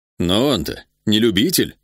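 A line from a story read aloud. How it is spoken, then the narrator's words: Angry. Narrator (Russian): сердито сказал Ида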